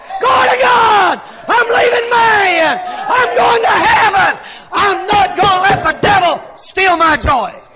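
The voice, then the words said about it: Shouting, loud preaching. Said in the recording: “I'm shouting”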